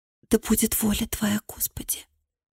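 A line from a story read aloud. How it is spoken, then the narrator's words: Whisper. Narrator (Russian): прошептала она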